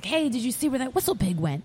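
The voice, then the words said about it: French accent. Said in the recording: “he has a French accent”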